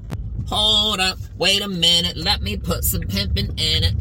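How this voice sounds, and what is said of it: Imitates another person's voice. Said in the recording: “best ever Katt Williams impersonation ever”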